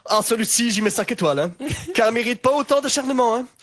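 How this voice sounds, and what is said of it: Put-on Belgian French accent. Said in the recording (French): “j'ai envie de lui faire un accent belge”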